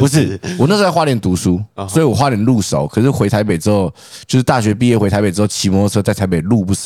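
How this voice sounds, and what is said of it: Usual voice. Nothing is said of it.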